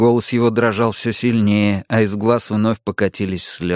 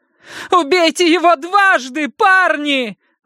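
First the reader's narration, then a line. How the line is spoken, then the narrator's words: Sudden shout. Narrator (Russian): внезапно выкрикнула Маджери Детерик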